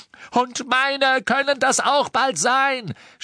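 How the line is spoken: Shouting. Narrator (German): schrie Ron

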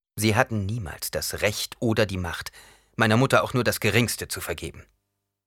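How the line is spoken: Cold reply. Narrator (German): Paul erwiderte mit kalter Stimme

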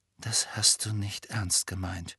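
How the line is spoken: Quiet. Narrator (German): sagte Harry leise

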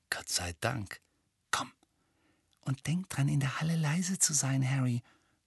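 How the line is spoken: Whispered. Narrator (German): flüsterte Hermine

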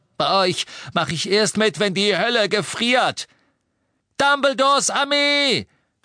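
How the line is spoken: Shouting. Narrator (German): schrie Neville

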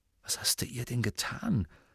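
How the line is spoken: Murmured. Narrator (German): murmelte Ron Harry zu

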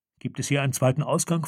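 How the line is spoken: Plain question. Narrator (German): fragte Farodin

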